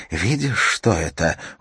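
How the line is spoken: Whisper. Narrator (Russian): ее шепот

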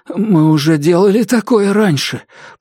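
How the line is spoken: Hoarse rasp. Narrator (Russian): прохрипел Дайн

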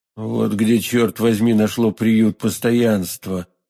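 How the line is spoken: Muttering. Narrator (Russian): пробормотал Атос

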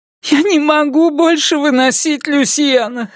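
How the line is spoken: Sobbing. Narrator (Russian): всхлипнула она

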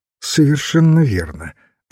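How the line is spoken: Plain. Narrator (Russian): ответил священник

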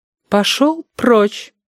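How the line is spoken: Pretty singsong woman's voice. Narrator (Russian): красивым певучим голоском сказала толстуха с дротиком

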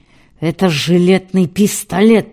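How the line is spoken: Enraged growl. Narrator (Russian): прорычал Матвей Бенционович, наливаясь кровью

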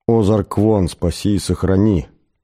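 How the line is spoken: Muttering under breath. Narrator (Russian): пробурчал он под нос

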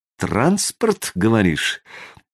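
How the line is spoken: Quiet musing drawl. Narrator (Russian): негромко протянул Костя, начиная рассуждать вслух

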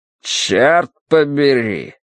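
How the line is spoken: Grumbling. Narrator (Russian): проворчал Смайт

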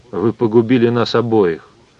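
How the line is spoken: Fairly calm. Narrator (Russian): сказал Майк сравнительно спокойно

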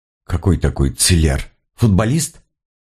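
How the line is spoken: Skeptical snort. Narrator (Russian): Сыщик хмыкнул

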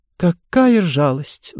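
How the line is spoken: Sighing. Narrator (Russian): вздохнула Таппинс

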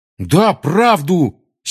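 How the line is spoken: Angry exclamation. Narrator (Russian): сердито воскликнул Рон

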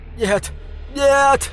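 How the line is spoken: Sobbing. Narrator (Russian): зарыдала Мискин

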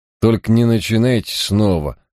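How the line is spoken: Grumbling. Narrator (Russian): проворчал он

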